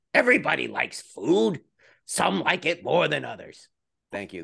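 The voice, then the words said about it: Awful Gilbert Gottfried impression. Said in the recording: “That's my awful Gilbert Gottfried impression.”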